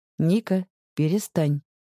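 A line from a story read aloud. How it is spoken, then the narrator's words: Soft but firm. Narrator (Russian): говорит он мягко и твердо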